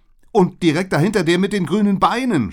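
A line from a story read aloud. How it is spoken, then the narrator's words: Horrified scream. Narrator (German): schrie ich entsetzt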